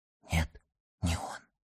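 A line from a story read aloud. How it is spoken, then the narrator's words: Whispered. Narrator (Russian): прошептала она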